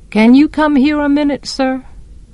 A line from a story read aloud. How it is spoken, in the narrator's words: his voice was distant